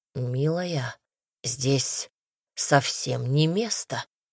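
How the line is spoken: Hoarse breathy exhale. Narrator (Russian): хрипло выдохнул

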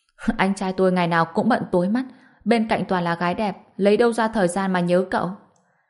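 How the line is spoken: Laughing. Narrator (Vietnamese): Đường Mộng Quân bật cười

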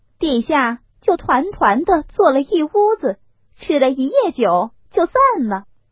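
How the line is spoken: Thoughtful, laughing. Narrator (Chinese): 凤姐儿想了一想，笑道

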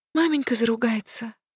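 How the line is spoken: Sighing little girl. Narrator (Russian): вздохнула сестренка

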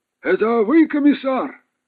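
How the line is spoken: Distant shout. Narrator (Russian): крикнул еще издали

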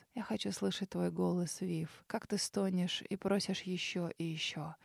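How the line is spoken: Soft heartfelt voice. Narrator (Russian): мужчина проникновенно тихо произнес

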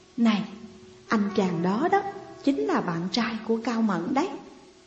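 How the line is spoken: Whispering. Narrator (Vietnamese): Cô nói khẽ với tôi

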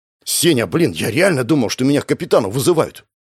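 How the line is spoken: Relieved exhale. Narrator (Russian): выдохнул парень

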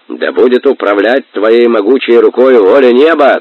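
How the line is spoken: Crowd shouting. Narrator (Russian): кричали Нохою кипчаки

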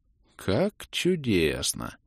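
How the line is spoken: Muttered. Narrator (Russian): пробормотал я

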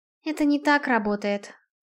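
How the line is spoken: Sigh. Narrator (Russian): вздохнула Наэль

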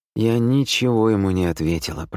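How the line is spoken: Gloomy voice. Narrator (Russian): проговорила мрачно

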